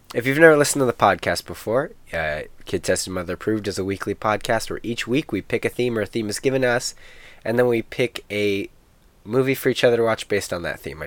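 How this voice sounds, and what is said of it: Sick, congested nasal voice. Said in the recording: “I'm a little sick. You can hear... You can hear it in my voice. ... Nose. ... Yeah, you can hear it.”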